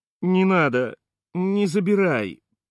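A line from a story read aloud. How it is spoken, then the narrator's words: Choked pleading. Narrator (Russian): придушенно взмолился Пупсик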